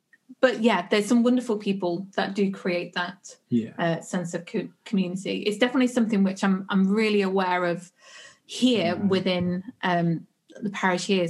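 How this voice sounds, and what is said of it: Noticeable regional accent. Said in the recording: “She's got a funny accent.”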